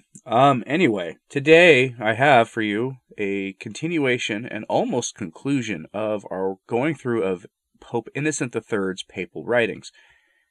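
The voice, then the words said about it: Weird-sounding voice with a cold. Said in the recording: “My voice might sound a little weird right now, but that's because there's a cold tearing its way through my family. And yes, I got it.”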